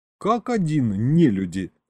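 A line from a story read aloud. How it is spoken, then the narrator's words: Chuckle. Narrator (Russian): хохотнул я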